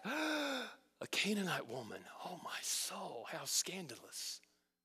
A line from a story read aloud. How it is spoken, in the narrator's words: they gasped